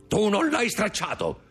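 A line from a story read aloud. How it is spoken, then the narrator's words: Shouted. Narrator (Italian): gridò Caderousse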